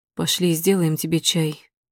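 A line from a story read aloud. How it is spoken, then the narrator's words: Quiet. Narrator (Russian): тихо говорит Матвей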